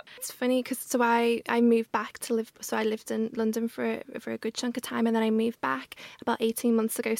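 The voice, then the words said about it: Scouse Liverpool accent. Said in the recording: “my Scouse accent is very much there now”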